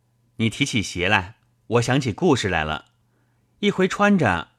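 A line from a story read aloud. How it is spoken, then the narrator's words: Laughing. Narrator (Chinese): 宝玉笑道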